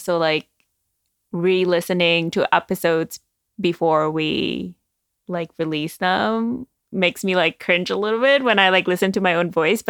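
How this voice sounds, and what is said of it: Speaks with a noticeable accent. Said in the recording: “I'm always self-conscious about my accent.”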